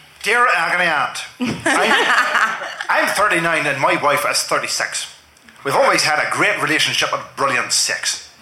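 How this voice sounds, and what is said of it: Put-on Northern Irish accent. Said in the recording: “Can you do it in a Northern Irish accent”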